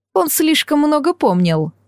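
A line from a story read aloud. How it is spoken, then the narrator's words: Sighing woman. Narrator (Russian): вздохнула леди Фея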